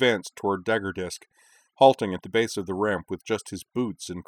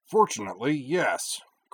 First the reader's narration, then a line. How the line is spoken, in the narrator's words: Corwin grunted